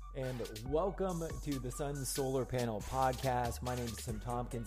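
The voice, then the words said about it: Hoarse, strained voice. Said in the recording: “My voice is giving out. I accidentally got hit in the throat ... I still can't talk.”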